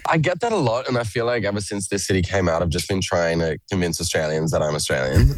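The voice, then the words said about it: Australian accent with American influence. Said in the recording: “My accent is an absolute mess... you sound like a bloody Yank”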